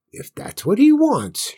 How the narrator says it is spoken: murmured

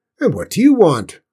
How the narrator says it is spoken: barked the fat, red-faced cook, her voice loud and raw

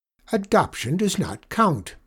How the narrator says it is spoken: snapped Miss Perkle

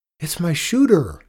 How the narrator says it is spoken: Willis cried

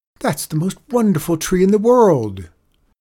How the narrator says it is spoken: the children cried

